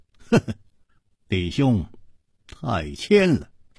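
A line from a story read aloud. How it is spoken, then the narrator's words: Smiling. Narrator (Chinese): 楚留香微笑着说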